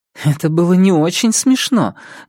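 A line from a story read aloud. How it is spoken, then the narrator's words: Giggling to herself. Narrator (Russian): говорит она себе и снова хихикает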